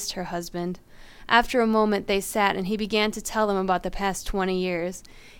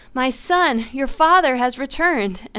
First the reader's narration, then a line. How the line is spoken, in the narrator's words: She screamed